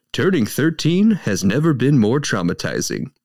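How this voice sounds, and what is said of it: Movie-trailer announcer voice. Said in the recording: “In my perfect movie voice.”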